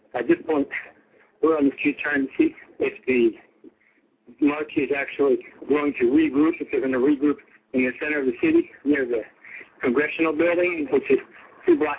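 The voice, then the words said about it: Reporter audibly out of breath. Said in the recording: “I'm a little out of breath, but that's from the hills in the center of the city”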